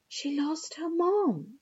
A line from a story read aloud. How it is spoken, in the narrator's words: say softly